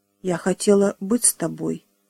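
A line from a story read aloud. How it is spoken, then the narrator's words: Plain. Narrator (Russian): сказала она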